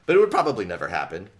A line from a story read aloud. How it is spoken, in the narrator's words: David said with a laugh